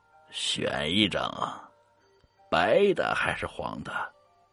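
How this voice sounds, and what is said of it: Creepy, frightening voice. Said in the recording (Chinese): “一个可怕的声音说道”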